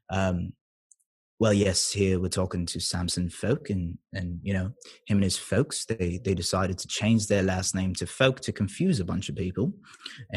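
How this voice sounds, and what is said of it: Put-on Cockney accent. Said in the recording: “Cockney accent. Let's see. Cockney is like regular British.”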